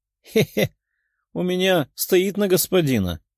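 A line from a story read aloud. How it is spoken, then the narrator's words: Giggling. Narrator (Russian): хихикнула Тефия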